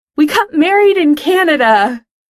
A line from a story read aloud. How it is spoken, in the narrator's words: Over all the teenies screaming, Pete yells into the mic